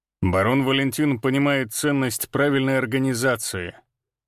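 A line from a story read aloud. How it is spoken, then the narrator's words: Snorting reply. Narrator (Russian): хмыкнул он в ответ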